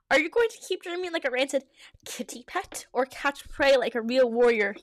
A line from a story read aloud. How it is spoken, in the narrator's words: He spat at him